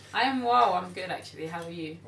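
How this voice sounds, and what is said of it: Put-on podcast host voice. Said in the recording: “she put on a podcast voice”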